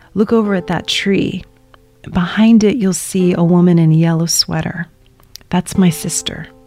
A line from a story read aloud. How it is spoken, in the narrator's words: my dad leans over and whispers to me